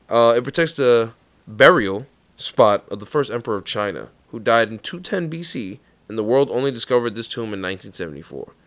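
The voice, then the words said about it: Thick New York accent. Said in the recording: “my New York accent. I feel like it's gotten... heavier lately... my accent's way thicker now”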